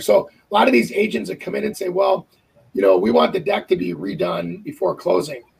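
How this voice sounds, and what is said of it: Hoarse, raspy strained voice. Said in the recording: “you sound like a lot of Italian smokers with that voice right now ... He's got the accent to go with it, too ... He's coughing ... I'm pushing my voice too hard.”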